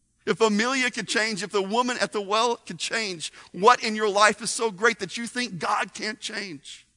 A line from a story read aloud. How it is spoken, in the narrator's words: They cried out